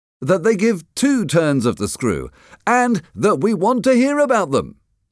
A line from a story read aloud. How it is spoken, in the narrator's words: somebody exclaimed